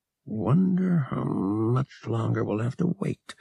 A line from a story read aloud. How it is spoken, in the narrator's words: Han muttered nervously